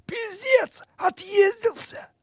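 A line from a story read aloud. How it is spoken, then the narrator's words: Hoarse furious tenor. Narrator (Russian): Лицо мужичка побагровело, глаза налились кровью, он произнес сиплым тенором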